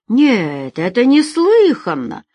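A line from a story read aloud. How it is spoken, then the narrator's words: Exclaimed. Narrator (Russian): воскликнул бармен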